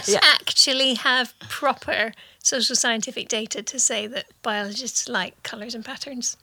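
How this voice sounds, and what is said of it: Scottish accent. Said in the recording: “I identify as Scottish ... Your accent identifies as Scottish”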